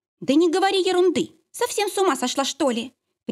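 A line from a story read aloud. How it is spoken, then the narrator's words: Sharp shout at sister. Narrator (Russian): прикрикнул на сестру Полика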